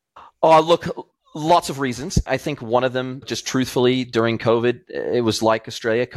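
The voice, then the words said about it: American accent. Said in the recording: “you've still got your American accent, obviously.”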